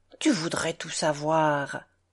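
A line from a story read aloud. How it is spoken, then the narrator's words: Unusual grumble. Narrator (French): grommela-t-elle, contrairement à son habitude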